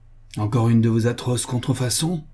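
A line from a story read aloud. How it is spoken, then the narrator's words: Exclaiming. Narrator (French): s'écriait-elle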